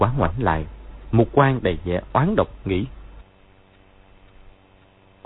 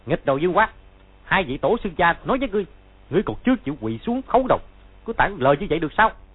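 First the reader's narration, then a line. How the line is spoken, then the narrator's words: Loud shout. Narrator (Vietnamese): Hắn ... quát to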